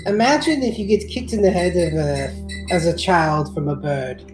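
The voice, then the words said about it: Odd put-on foreign-sounding accent. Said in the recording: “what's going on with your, like, accent, bro? Are you, like, Chinese or, like, French?”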